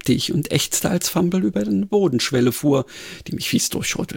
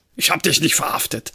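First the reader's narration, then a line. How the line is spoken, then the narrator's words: Grunting insistence. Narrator (German): behauptete er grunzend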